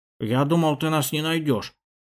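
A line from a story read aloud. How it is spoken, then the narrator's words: Grumble. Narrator (Russian): проворчал Васятка по кличке Шиш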